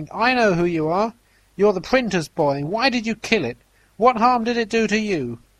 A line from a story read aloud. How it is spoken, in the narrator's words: the old woman ran shrieking shouting